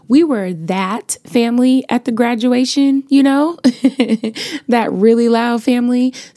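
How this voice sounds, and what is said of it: Slightly raspy, partly lost voice. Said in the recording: “my voice is a little raspy today. I lost my voice completely last week ... it still hasn't come back all the way”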